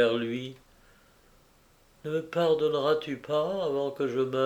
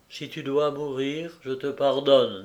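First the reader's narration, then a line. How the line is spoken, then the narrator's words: Plain. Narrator (French): dit-il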